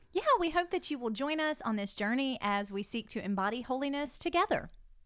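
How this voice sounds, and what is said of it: Southern American accent. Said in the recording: “you feel like you need to judge our Southern accents”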